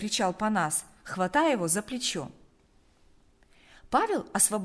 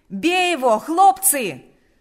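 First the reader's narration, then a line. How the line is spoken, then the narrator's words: Shouted again. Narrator (Russian): снова закричал Панас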